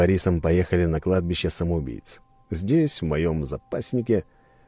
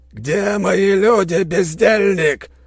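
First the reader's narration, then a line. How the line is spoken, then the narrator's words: Roared. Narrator (Russian): проревел Вениамин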